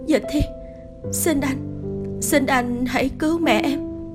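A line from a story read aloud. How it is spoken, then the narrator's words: Hoarse pleading. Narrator (Vietnamese): khàn khàn giọng cầu xin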